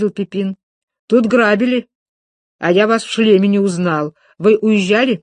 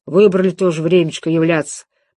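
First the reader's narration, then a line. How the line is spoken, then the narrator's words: Grumbling. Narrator (Russian): пробурчал он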